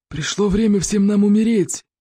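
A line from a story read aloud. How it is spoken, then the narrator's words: Growling. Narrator (Russian): прорычал зеленый смерч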